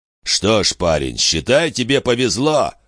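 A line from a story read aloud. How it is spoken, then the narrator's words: Snort. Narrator (Russian): хмыкнул Зик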